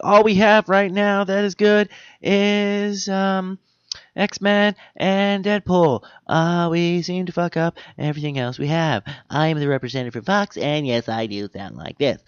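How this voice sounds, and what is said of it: Impersonates a Fox studio representative. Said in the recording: “A lot of impersonations on tonight's show.”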